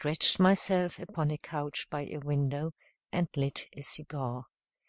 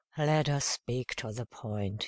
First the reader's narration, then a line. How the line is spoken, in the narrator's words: he said soothingly